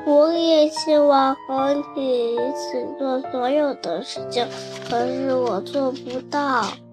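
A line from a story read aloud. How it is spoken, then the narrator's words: Sniffling, quiet. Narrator (Chinese): 西西吸吸鼻子，小声地说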